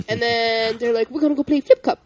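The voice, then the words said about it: Imitated Canadian accent. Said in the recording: “They were very Canadian. ... Your Canadian impression.”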